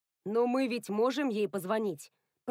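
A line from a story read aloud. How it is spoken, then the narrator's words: Grumbling. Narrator (Russian): пробурчал Рекс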